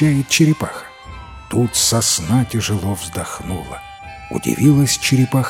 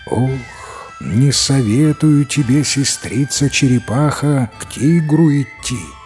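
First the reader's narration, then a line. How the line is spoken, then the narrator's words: Sighing, old tree. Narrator (Russian): сосна вздохнула еще раз и говорит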